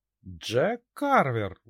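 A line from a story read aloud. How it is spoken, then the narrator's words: Indignant speech. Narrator (Russian): возмущенно произнесла она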